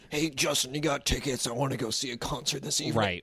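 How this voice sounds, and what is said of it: Imitates another person's voice. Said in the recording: “I can't even do that voice.”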